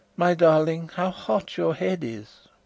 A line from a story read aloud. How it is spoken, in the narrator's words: I heard her murmur